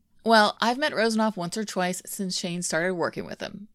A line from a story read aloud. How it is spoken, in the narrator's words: Hayden says